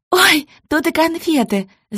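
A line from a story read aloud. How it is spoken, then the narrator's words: Girl shouting. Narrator (Russian): закричала девчонка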